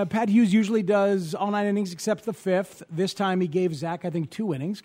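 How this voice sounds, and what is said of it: Usual voice. Nothing is said of it.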